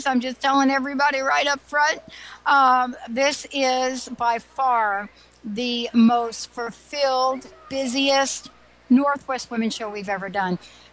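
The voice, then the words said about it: Slightly hoarse voice. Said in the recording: “my voice is actually, I think I'm getting a little hoarse”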